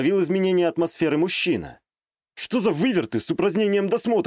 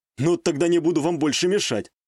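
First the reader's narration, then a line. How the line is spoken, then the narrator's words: Wry snort. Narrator (Russian): хмыкнул я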